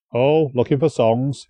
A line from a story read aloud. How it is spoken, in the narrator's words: replied cheerfully